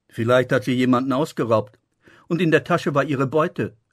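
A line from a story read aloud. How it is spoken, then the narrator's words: Laughing. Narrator (German): lachte Abbas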